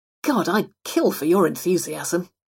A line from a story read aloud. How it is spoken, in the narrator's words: she grumbled